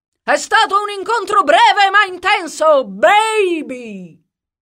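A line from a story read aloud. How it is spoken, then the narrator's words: Shouting from above. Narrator (Italian): gridò Jack dall'alto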